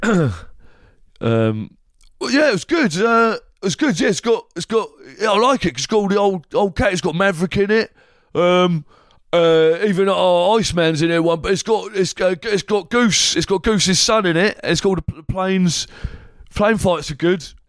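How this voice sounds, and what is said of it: Impression of a mid-forties man. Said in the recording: “do a quick impression of a mid-40s man who's just been to see Top Gun Maverick”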